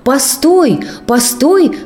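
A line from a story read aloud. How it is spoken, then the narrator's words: Surprised fairy shouting. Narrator (Russian): кричала удивленная фея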